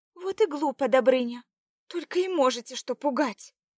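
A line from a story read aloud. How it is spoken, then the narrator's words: Said with deep sigh. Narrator (Russian): вымолвила Заряна, глубоко вздохнув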